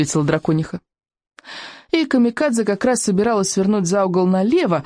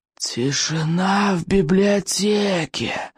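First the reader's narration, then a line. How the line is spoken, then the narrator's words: Monster's hoarse wheeze. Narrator (Russian): просипело страшилище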